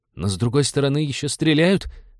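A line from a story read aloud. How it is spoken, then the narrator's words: Timid. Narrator (Russian): робко напомнил один из пиратов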